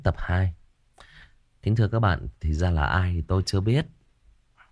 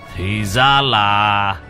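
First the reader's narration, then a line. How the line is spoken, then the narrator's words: Loud laughter. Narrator (Vietnamese): Người thanh niên ngửa mặt lên trời cười lớn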